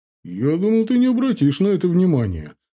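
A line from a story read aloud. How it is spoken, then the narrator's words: Chuckle, father. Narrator (Russian): хохотнул отец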